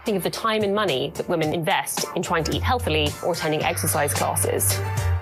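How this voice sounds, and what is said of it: British accent. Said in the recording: “that chick had an accent. It's because she is British.”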